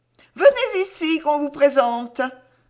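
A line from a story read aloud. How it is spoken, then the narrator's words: Noblewoman exclaimed. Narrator (French): s'écria la marquise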